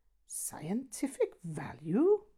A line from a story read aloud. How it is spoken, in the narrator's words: gasped Geraint